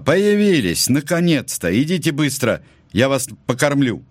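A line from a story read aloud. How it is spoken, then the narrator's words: Shout from window. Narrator (Russian): Тетя Лиза крикнула из окна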